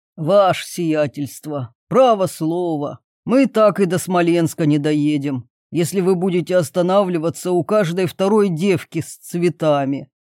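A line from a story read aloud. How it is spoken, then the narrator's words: Grumbling. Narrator (Russian): ворчал Кузьма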